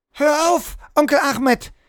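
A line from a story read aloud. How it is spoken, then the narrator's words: Shout. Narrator (German): schrie Hannah erneut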